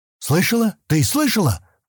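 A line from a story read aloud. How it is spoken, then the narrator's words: Exclaimed. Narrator (Russian): воскликнул Стэн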